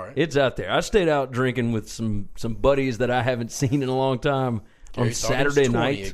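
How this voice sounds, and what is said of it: Slightly raspy voice. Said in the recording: “my voice is super raspy ... you can tell a little bit”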